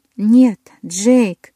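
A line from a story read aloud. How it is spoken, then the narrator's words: Moaned. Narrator (Russian): простонала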